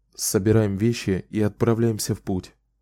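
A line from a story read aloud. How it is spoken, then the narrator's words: Quiet. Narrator (Russian): тихо сказал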